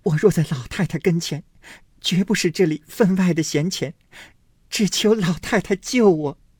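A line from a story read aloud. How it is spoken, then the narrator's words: Crying. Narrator (Chinese): 黛玉哭道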